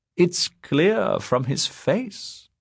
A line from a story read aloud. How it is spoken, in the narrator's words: said Funde Esser, smiling sweetly